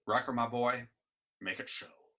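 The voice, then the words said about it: Captain Picard impression. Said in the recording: “100% five-star AAA Picard impression. This is like the best Picard impression ever.”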